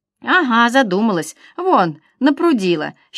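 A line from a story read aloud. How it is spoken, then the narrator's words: Mother laughing happily. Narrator (Russian): счастливо засмеялась мама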